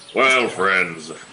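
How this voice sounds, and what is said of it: Jolly Santa Claus voice. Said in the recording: “You sound like Santa Claus.”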